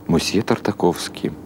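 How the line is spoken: Quiet reply. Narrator (Russian): ответил ему Бенни Крик тихим голосом

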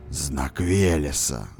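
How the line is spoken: Hoarse rasp. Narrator (Russian): захрипел

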